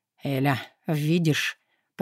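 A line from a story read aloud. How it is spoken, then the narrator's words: Hoarse. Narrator (Russian): Прохрипел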